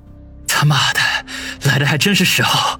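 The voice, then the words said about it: Quiet muttered cursing. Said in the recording (Chinese): “小声地骂道”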